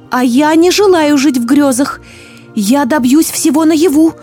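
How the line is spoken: Shouted. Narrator (Russian): выкрикнула Злата

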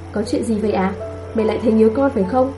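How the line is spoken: Smiling. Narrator (Vietnamese): Cô mỉm cười nói

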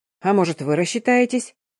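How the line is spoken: Man's clarifying question, with a snort. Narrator (Russian): мужчина и, хмыкнув, уточнил

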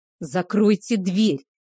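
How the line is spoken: Barked. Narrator (Russian): рявкнул Кейхар

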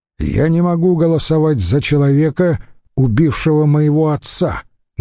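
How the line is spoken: Loud declaration. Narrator (Russian): громко заявил он

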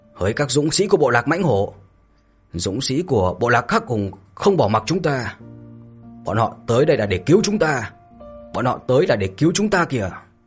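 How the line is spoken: Fierce long shout. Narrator (Vietnamese): Hổ Bào hung hăng thét dài

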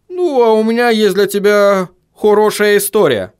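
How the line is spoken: Gloomy dwarf announcement. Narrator (Russian): мрачно известил гном

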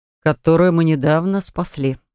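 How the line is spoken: Muttered. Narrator (Russian): буркнул чародей

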